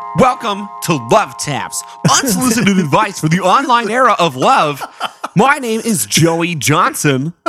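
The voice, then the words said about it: Radio DJ voice. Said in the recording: “That's my radio DJ voice.”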